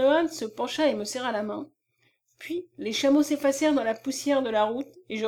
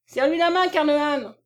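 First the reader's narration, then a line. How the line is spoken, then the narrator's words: Shouted. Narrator (French): cria-t-il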